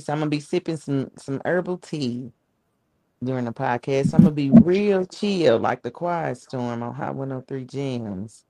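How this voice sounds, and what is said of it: Hoarse voice. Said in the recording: “I'm a little hoarse in the voice.”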